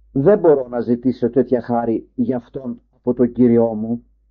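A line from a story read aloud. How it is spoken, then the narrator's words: Plain. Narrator (Greek): είπε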